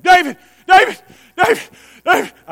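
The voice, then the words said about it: Breathless, out-of-breath calling. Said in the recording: “I'm picturing him out of breath because he had to run a long way”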